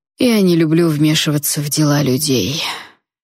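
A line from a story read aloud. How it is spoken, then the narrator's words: Bored tone. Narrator (Russian): скучающим тоном ответил дракон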